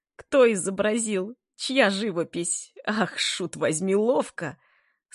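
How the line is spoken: Merry shouts amid laughter. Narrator (Russian): Слышались веселые крики между взрывами бурного хохота

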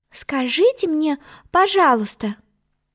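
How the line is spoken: Timid. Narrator (Russian): начала она, робко глянув на черную королеву

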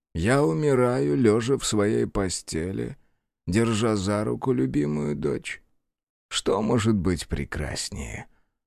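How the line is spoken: Sighing, repeating. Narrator (Russian): Феллер вздохнул и повторил

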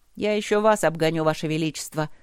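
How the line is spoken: Snide old woman. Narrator (Russian): ехидно отозвалась волшебница, выглядящая как полноватая старушка-библиотекарь

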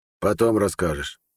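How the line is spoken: Hoarse. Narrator (Russian): хрипло сказал Харалд

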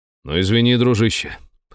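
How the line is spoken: Wry snort. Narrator (Russian): хмыкнул я

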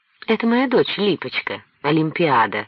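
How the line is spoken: Gentle, affectionate. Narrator (Russian): ласково сказал Кольцов

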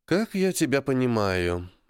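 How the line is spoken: Sighing. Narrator (Russian): Аня вздохнула

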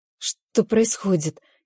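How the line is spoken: Frightened whisper. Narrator (Russian): испуганно шепчу я

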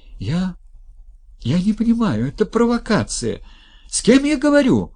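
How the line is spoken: Shout. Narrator (Russian): закричала она

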